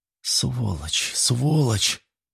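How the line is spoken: Girl muttering. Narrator (Russian): бормотала девушка

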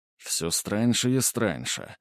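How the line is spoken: Muttering. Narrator (Russian): пробормотал Грубер

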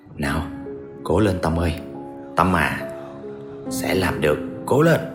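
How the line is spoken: Determined muttering to self. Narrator (Vietnamese): tôi lầm bầm một mình để thêm quyết tâm

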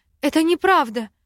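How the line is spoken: Indignant, raised voice. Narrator (Russian): Возмущенно повысила голос

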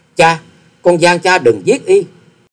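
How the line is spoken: Choked cry. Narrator (Vietnamese): nghẹn ngào kêu lên

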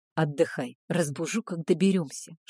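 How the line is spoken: Whisper. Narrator (Russian): шепнул Альпин

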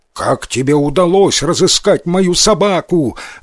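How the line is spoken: Shout. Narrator (Russian): закричал он

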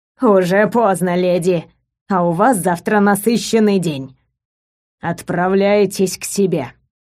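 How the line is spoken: Deep bass voice. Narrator (Russian): Магретта пробасила

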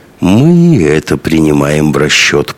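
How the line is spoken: Purring. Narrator (Russian): промурлыкал господин Мао

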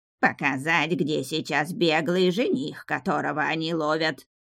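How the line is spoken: Nasal twang. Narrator (Russian): прогнусавила четвертая кикимора

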